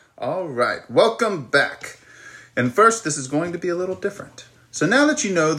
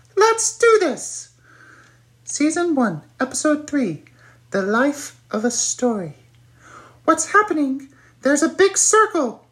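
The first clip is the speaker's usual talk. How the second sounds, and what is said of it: High-pitched squeaky voice. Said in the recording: “I'm going to talk like this in a high-pitched, squeaky voice.”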